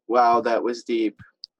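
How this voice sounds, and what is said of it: Sarcastic delivery. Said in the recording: “I said that sarcastically”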